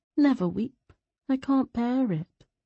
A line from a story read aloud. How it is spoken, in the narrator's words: Sebron murmured